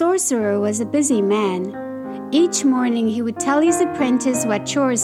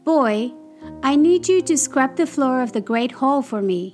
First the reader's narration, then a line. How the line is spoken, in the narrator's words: he said